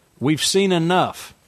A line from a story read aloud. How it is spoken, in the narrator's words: Frank said, raising his voice